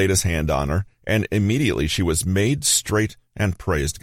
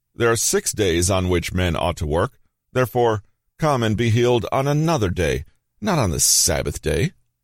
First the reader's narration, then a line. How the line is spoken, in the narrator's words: The man called out to the crowd and said